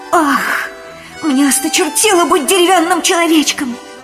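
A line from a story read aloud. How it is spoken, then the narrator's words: Exclamation. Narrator (Russian): воскликнул Пиноккио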